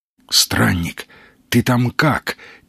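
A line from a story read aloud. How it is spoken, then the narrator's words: Quiet question. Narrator (Russian): тихо спросил Маломальский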